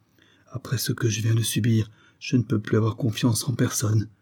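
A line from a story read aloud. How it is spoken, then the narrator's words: Murmured. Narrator (French): murmura-t-il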